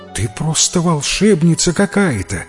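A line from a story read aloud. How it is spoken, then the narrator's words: Admiring exclamation. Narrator (Russian): восхищенно воскликнула прачка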